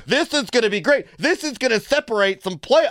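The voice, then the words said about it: Imitates another person's voice. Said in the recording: “I don't know why I'm doing his voice that way.”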